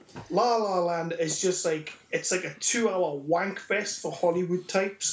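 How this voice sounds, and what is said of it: Distinctive regional accent. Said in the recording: “with your accent and vocabulary, it just sounds so much better... It's just the accent”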